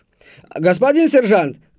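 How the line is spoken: Shouted. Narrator (Russian): крикнул он

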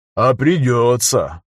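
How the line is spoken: Sighing. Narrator (Russian): вздохнул Кабан

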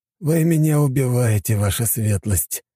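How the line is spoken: Groaning. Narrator (Russian): простонал Аксаханов

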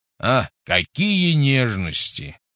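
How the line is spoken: Scoffing snort. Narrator (Russian): фыркнул Гош

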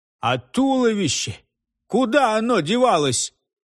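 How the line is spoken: Loud laughter. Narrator (Russian): Кайо захохотал

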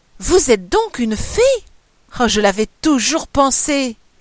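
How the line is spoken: Exclaimed. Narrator (French): s'écria Ninette

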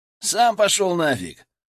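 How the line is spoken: Joyful grinning. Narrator (Russian): Радостно оскалился Гена

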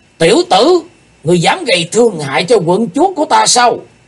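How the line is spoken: Deep heavy shout. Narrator (Vietnamese): chợt có một giọng quát nặng trầm nổi lên

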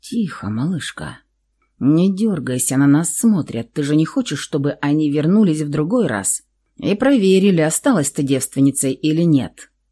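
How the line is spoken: Whispered. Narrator (Russian): он прошептал

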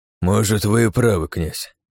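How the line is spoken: Sighed. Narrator (Russian): вздохнул Джонсон

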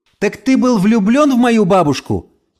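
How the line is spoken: Shouting after someone. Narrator (Russian): крикнула Эльса ему вслед

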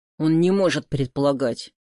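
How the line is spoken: Angry. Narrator (Russian): сердито сказал Андрей

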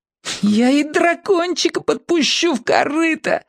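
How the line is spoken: Sob. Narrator (Russian): всхлипнул кранец

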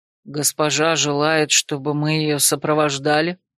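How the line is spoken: Calm question. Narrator (Russian): Спокойно осведомился Раэрн, словно не услышал

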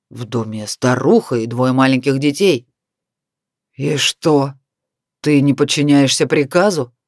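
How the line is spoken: Furious words through teeth. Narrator (Russian): с яростью процедил главный каратель

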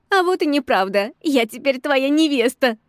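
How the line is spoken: Manic laughter. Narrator (Russian): Захохотала я, как сумасшедшая

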